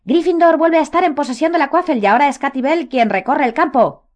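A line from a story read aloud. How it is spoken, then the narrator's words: Brave shout, barely audible. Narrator (Spanish): gritó Lee con valor, aunque los cantos eran tan ensordecedores que apenas se le oía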